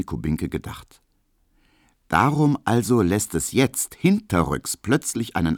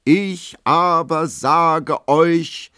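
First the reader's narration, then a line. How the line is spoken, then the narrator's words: Lion-like roar. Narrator (German): brüllt er mit Löwenstimme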